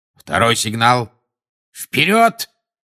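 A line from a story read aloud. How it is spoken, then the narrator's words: Barked command. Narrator (Russian): рявкнул Люпин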